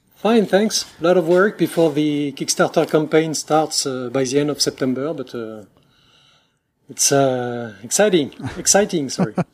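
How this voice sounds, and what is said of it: French accent in English. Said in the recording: “Forgive my rusty English ... we are two guys from France, so obviously we'll have a French accent.”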